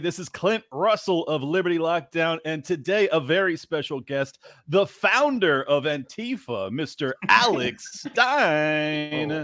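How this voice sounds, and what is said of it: Radio announcer voice. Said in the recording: “got the radio voice going on”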